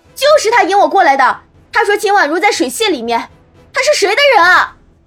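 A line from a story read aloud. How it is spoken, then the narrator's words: Loud shouting. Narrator (Chinese): 戚荣之 立时大声叫起来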